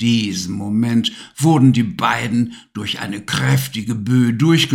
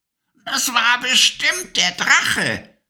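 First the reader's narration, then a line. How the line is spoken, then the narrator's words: Croaking witch voice. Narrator (German): krächzte die Stimme der Hexe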